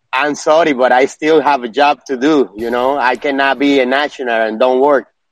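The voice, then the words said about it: Distinctive recognizable accent. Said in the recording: “I recognize your accent.”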